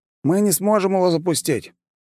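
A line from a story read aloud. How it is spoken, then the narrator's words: Snort. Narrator (Russian): я хмыкнул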